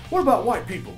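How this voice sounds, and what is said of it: Poor imitation of another person's voice. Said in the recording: “my best Chris Rock impression. I can't do a good Chris Rock impression”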